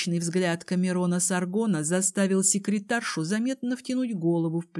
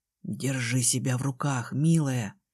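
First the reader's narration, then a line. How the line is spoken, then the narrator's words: Close hot whisper. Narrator (Russian): шепнул он, и его дыхание обожгло мне ухо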